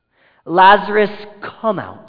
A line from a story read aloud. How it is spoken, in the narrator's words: Jesus calls out in a loud voice